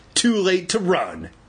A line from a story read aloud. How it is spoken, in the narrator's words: Andy shrieked